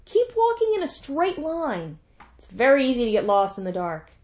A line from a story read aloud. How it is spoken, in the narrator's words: The other called out